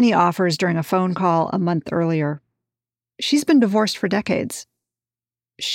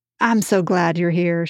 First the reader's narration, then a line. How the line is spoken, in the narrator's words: she chuckles